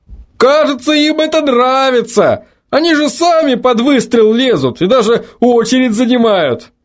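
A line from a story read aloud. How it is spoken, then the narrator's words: Shout from crowd. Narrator (Russian): Выкрикнул кто-то из толпы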